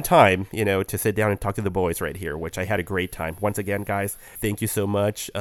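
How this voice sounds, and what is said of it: Slightly itchy, rough voice. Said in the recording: “my voice is a little, uh, a little um, itchy, you know, right now”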